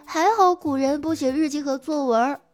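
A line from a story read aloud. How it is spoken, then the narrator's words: Child crying. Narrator (Chinese): 我班上的孩子哭着说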